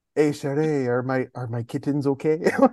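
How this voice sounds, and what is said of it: Poorly done French Canadian accent. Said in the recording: “I don't know why he's French Canadian. I'm terrible with accents”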